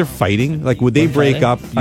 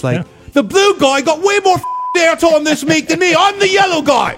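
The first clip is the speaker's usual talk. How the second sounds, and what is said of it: Convincing put-on accent. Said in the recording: “That's a damn good accent.”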